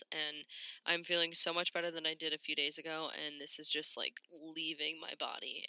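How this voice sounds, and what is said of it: Raspy, sniffly voice. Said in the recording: “I sound a little bit more raspy today on this episode, and you hear a lot more sniffles. I am just getting over a cold ... I just sound worse than I feel”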